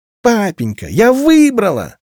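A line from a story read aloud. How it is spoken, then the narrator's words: Shrill, piercing voice. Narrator (Russian): Визгливый голос ударил по ушам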